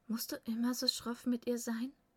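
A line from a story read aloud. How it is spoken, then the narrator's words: Deep laugh. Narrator (German): Asmund lachte tief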